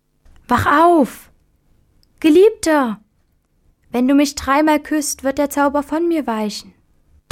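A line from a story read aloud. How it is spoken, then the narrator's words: Calling out. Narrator (German): die schöne Fee Ilona rief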